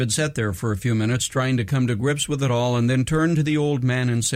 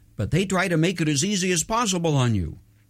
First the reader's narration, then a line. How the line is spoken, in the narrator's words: trying to minimize the issue quickly, he added